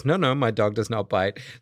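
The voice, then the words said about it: Bad put-on French accent. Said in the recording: “every bad French accent in a movie... the bad French accent is not in the book. It's in your reading of the book”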